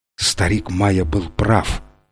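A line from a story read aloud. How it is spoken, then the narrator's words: Whispered. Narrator (Russian): прошептал Фрэнсис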